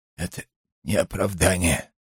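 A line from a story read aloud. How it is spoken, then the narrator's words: Strained mutter. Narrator (Russian): с трудом пробормотал Петер Зов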